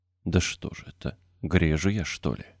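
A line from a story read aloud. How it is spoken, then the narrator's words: Mutter. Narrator (Russian): пробормотал он наконец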